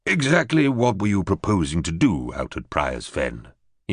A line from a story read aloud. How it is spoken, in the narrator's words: he inquired in a chary tone